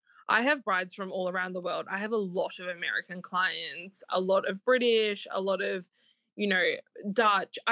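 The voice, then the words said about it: Australian accent. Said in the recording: “They hear my accent, and I tell you, sometimes they just have to hear my accent to be like, Australians know how to do a wedding.”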